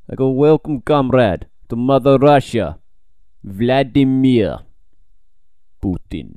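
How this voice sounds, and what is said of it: Put-on Russian accent, poorly done. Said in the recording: “that's a terrible that's Russian accent. The worst I can accent ... In a Russian accent”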